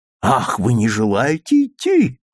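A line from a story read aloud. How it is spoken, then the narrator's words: Exclaimed. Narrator (Russian): воскликнул Мейсон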